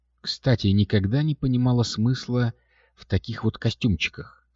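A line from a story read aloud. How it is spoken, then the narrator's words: Plain. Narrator (Russian): сказала Катя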